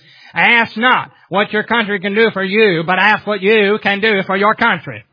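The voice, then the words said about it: John F. Kennedy impression. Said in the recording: “my JFK impersonation.”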